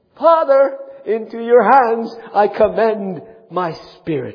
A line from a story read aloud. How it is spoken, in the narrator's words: Jesus cried with a loud voice saying